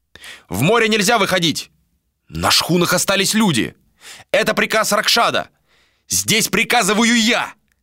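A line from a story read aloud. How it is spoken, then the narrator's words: Shouted. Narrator (Russian): закричал Адер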